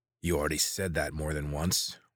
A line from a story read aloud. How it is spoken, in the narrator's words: one of the men growled